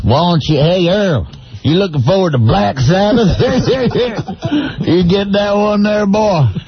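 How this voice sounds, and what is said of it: Put-on Southern US accent. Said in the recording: “with a southern accent”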